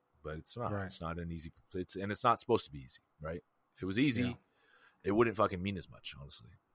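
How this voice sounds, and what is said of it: Deep, smooth radio voice. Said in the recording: “He has such a great radio voice. ... that deep ass voice, man. ... That sensual seduction.”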